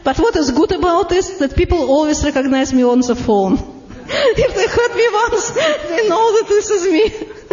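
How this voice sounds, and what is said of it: Very heavy Russian accent. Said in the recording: “you recognize my Russian accent ... my very heavy Russian accent”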